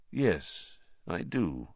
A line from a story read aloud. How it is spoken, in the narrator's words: said Dumbledore quietly